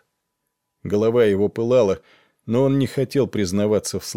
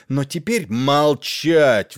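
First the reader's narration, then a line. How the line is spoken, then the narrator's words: Roaring king. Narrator (Russian): взревел король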